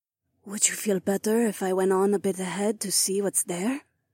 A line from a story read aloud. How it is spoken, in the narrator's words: Nora whispered